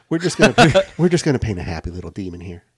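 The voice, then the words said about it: Bob Ross impression. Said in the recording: “in a Bob Ross voice”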